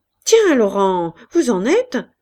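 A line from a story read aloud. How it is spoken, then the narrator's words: Surprised exclamation. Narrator (French): s'écria Wes, surpris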